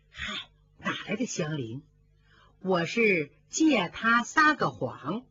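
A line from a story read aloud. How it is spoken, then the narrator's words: Laughing. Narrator (Chinese): 平儿笑了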